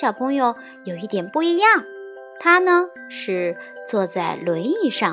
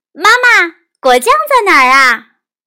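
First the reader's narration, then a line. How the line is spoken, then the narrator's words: Calling out. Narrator (Chinese): 玛吉特喊道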